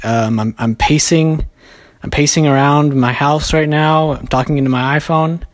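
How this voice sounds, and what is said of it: Out of breath, breathless speech. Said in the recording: “If it sounds like I'm out of breath, it's because I am.”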